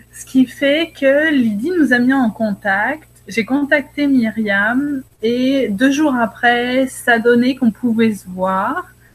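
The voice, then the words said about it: Mixed Québécois and French accent. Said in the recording (French): “j'ai un accent autant québécois que français”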